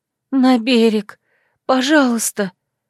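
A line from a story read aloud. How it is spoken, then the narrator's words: Hoarse wheeze, sore throat. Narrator (Russian): просипела соднящим горлом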